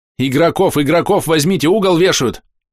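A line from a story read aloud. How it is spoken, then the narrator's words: Half-joking shout. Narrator (Russian): Она в полушутку отталкивалась, кричала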